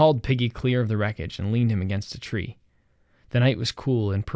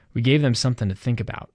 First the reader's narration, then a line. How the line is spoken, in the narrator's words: said Sam